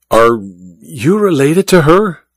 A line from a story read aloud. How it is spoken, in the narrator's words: Olga sighed dramatically